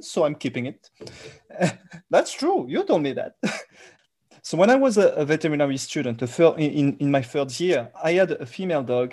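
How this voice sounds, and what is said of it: Thick French accent. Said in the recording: “I'm sure you can hear my thick French accent... I will never lose this accent”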